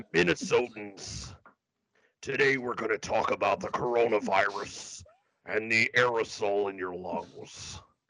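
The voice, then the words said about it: Imitates another person's voice. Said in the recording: “You sound like my favorite former WWE. ... I just wanted to do my Jesse Ventura.”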